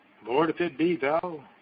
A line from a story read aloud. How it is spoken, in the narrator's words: cried out Peter